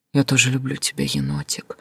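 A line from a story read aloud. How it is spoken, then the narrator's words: Tearful whisper. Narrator (Russian): шептала я сквозь слезы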